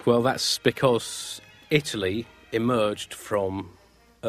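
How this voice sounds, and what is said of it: Usual voice. Nothing is said of it.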